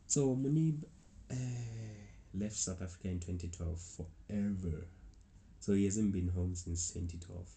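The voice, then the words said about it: South African accent. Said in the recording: “he could tell that I'm South African ... and also my accent”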